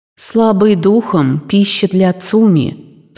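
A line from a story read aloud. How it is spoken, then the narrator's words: Dry old voice. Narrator (Russian): произнесенные сухим старческим голосом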